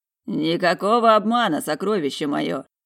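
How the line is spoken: Amused snort. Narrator (Russian): хмыкнул куратор

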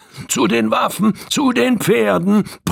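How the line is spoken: Roar. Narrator (German): brüllte der rote Körne

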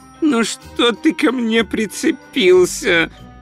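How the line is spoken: Groaned. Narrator (Russian): простонал он

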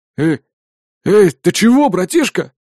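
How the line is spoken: Exclamation. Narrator (Russian): Воскликнул незнакомец

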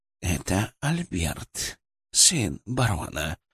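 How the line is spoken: Whisper in the mind. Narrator (Russian): прошептала Шипа у меня в голове

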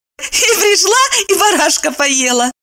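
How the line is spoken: Laughing reply. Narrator (Russian): рассмеялась в ответ Евдокия

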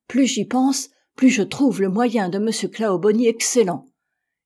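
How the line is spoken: Exclaimed. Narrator (French): s'écria Johnson

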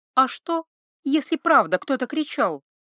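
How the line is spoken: Timid question. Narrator (Russian): робко спросила Ива

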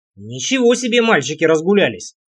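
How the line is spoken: Grumbling. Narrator (Russian): пробурчал я

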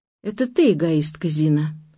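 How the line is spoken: Calm. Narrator (Russian): спокойно сказала Ася

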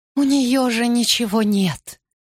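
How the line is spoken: Moaning. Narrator (Russian): простонала моя мать

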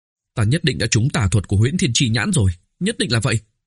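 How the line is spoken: Dazed mumbling. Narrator (Vietnamese): Oanh Oanh ngơ ngác lẩm bẩm

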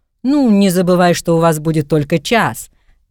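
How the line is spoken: Laughing loudly. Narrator (Russian): Гарри захохотал

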